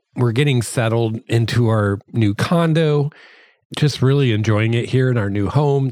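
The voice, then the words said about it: Hoarse, strained voice. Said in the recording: “I apologize about my voice. I feel like I'm losing my voice. Hopefully it doesn't sound too bad. ... my allergies have been going crazy lately”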